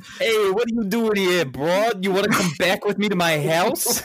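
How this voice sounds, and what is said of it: Stereotypical New York accent. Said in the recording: “He was trying to be so stereotypically New York ... his shitty New York impression”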